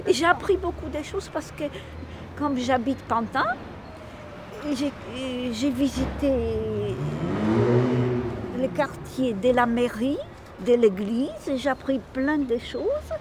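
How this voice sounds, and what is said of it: Polish accent speaking French. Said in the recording (French): “je suis d'origine polonaise. Et je suis arrivée en France à l'âge adulte... vu mon accent”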